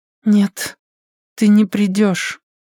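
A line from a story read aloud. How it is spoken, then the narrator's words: Dead flat objection. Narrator (Russian): мертвым голосом возразила она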